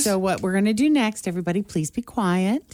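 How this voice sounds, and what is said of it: Sweet, gentle teacher voice. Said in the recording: “teacher voice ... there are different kinds of teacher voices, though. There's the very sweet”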